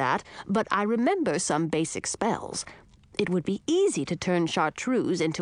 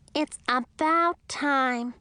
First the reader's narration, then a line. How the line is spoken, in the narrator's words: the little bat squeaked